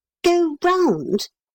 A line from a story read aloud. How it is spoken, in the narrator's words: repeated Neville in a puzzled voice